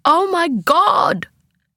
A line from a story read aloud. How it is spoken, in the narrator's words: Mum shrieked